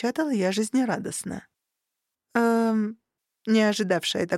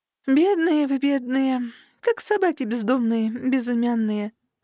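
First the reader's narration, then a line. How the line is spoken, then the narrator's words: Sympathetic sigh. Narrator (Russian): сочувственно вздохнула я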